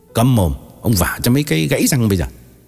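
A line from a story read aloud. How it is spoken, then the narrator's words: Angry scolding. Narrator (Vietnamese): Tín trừng mắt nạt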